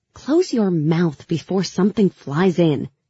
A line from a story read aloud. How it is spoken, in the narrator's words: I snapped